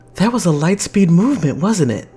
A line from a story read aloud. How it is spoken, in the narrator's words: Renee gasps